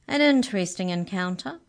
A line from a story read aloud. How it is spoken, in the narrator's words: said the mouse cheerfully